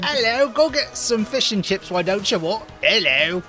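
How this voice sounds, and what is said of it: Bad put-on British accent. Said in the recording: “all the bad British accents”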